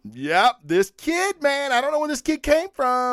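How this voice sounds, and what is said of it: Usual voice. Nothing is said of it.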